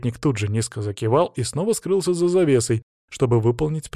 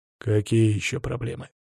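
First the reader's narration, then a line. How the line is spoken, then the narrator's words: King grumbling. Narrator (Russian): проворчал царь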